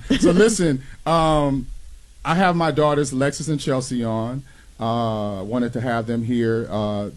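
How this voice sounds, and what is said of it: Emotional, choked-up voice. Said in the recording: “I'm getting choked up myself”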